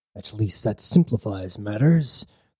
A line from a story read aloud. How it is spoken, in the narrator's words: thought grimly